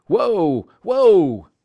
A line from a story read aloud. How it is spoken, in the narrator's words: Hal cried